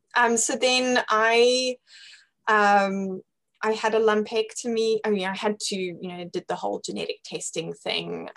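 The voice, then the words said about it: British accent. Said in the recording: “my mom is British and uh, hence the the British accent”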